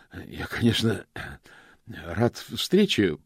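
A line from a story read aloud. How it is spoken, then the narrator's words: Hoarse croak. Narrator (Russian): прохрипел он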